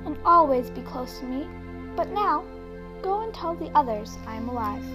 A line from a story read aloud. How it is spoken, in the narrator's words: Jesus said gently